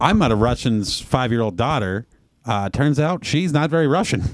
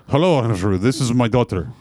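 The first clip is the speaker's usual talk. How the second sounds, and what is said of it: Thick Russian accent. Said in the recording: “he has a super thick accent.”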